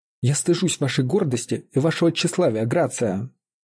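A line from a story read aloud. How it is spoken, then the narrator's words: Exclamation. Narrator (Russian): воскликнула мистерис Джемс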